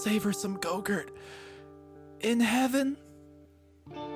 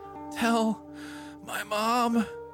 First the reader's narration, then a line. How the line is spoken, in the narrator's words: Jeff moaned